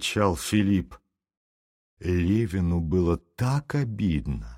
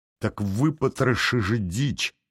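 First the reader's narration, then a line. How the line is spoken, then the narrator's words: Trembling voice. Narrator (Russian): сказал он дрожащим голосом Филиппу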